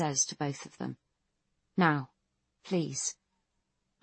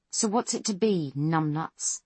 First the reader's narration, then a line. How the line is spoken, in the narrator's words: Foss snarls the words into McQueen's face